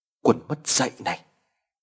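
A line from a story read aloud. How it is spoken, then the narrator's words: Stammering. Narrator (Vietnamese): Gã lắp bắp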